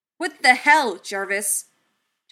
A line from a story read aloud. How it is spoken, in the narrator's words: Tony snapped